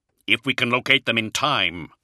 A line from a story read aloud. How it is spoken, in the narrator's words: Luther said grimly